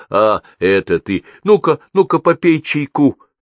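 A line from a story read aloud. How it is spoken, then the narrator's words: Exclaimed. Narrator (Russian): воскликнула тетя Груша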